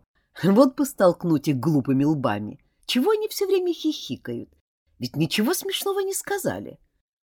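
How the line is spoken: Languid mutter. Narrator (Russian): Белоснежный Клод томно пробормотал

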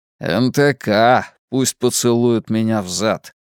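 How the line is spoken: Grumbling. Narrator (Russian): пробурчал Мунк

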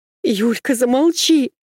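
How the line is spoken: Desperate shout. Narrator (Russian): закричала Машка так отчаянно

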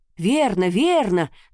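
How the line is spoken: Anxious crowd shouting. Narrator (Russian): закричали все, и толпу охватило еще большее беспокойство

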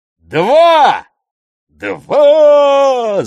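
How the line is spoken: Crowd yelling. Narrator (Russian): завопила толпа

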